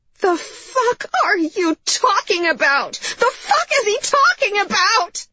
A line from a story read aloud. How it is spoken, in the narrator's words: she said to Vega, her voice cracking into a shriek